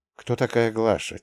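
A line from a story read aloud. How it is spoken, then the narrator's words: Quiet question. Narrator (Russian): тихо спросил я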